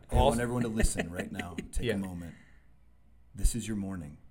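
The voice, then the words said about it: Smooth, polished podcast voice. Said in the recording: “doesn't he have a good podcast voice? ... He's got a great podcast voice ... that is next level”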